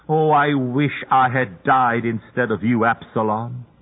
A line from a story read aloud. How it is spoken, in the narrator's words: David cried